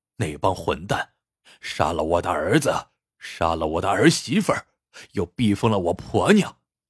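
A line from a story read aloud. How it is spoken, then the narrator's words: Bitter, through gritted teeth. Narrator (Chinese): 国风恨恨的咬了咬牙说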